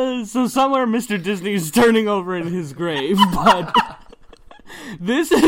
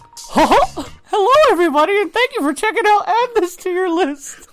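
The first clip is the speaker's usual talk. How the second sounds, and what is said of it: Cartoon mouse character voice. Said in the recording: “That is my best impression at Mickey Mouse”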